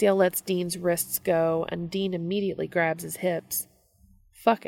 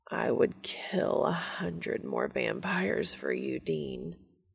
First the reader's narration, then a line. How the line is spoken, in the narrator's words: Castiel moans